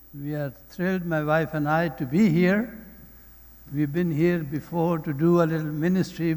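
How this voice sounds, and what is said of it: Speaker's own accent. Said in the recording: “my accent”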